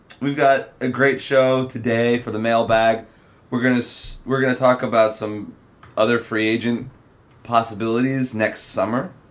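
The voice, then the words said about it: Congested, slightly sick voice. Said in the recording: “I'm still a little under the weather, in case you couldn't tell. I think my voice is still a little congested”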